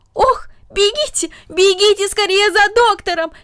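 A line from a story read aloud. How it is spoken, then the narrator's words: Alarmed shout. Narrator (Russian): закричала тетя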